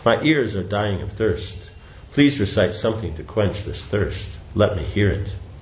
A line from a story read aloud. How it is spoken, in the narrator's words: In great ecstasy, Sri Chaitanya Mahaprabhu said to Sri Damodar in a faltering voice